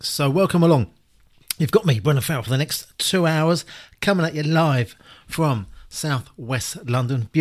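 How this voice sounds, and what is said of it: Hoarse voice. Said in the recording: “I'm a bit hoarse today. I always am, actually, when I do my shows.”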